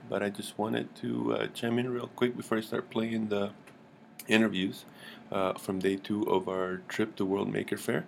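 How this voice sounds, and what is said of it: Rough, slightly hoarse voice. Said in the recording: “my voice is still a little rough from World Maker Faire”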